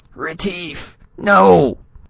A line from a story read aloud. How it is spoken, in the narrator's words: Spradley yelped